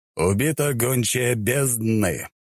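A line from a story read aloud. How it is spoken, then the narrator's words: Solemn. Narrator (Russian): Торжественным голосом заговорил он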